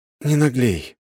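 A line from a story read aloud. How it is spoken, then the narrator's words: Sighing. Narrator (Russian): вздохнул я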